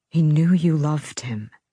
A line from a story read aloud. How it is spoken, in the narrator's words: Beckett said softly